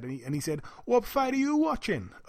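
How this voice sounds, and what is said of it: Attempted Welsh accent. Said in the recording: “I'm going to try and do his Welsh accent ... Terrible accent.”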